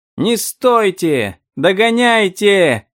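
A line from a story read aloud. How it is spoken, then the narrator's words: Boys yelling. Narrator (Russian): завопили мальчишки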